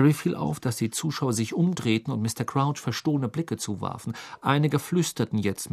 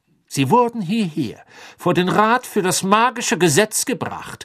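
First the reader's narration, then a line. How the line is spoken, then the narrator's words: Clear voice. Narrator (German): sagte mit klarer Stimme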